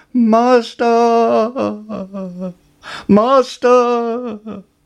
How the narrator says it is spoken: the harp cried

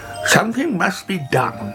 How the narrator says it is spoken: cried Grandpa Longnose

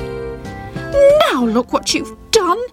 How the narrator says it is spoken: shouted Sybil angrily

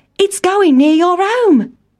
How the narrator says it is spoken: cried Town Mouse

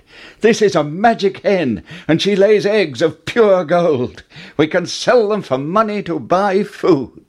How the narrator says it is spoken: Jack cried

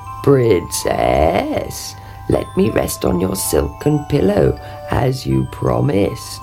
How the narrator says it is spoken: croaked

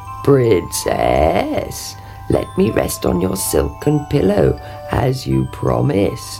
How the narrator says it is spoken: croaked

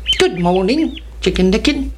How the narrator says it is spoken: said Ducky Lucky

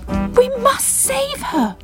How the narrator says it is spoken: cried Bubble

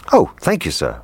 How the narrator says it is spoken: replied the cook

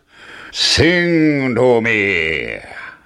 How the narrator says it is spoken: roared the giant

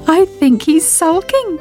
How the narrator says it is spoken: giggled Sybil

